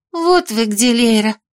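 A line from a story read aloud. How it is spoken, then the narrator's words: Relieved exhale. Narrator (Russian): выдохнула с облегчением Белка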